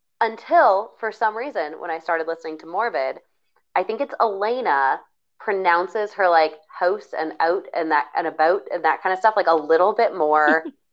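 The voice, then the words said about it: Minnesotan accent. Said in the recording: “It's because of how I'm pronouncing certain words ... my Minnesotan accent just like popped back out”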